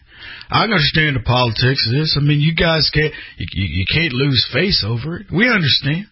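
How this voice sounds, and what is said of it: Tillerson impression, country accent. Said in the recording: “I can hear him with his country accent.”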